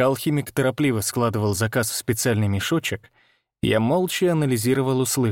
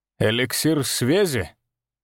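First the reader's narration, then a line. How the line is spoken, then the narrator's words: Contemptuous snort. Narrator (Russian): Он презрительно хмыкнул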